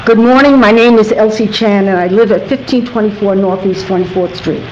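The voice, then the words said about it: Fast speech with Brooklyn accent. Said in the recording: “speaking very, very quickly ... my Brooklyn accent, my fast voice”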